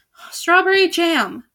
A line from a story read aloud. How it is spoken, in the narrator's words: Albert sighed